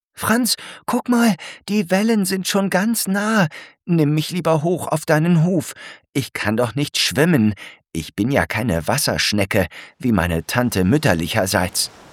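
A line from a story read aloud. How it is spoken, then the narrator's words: Very excited call. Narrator (German): ruft Alberta ganz aufgeregt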